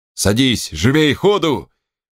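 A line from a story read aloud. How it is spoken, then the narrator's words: Shouting officers. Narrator (Russian): крикнули офицеры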